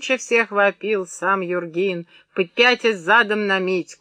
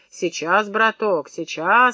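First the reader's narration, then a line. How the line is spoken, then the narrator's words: Gentle, affectionate. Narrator (Russian): ласково говорил Митька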